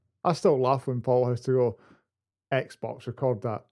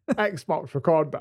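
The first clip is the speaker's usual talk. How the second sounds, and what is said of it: Imitates another person's voice. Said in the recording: “that was my impression of Bomb, by the way. That wasn't very good.”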